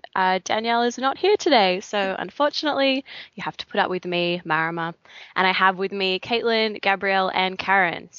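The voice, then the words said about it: Non-American accent. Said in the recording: “my amazingly un-American accent”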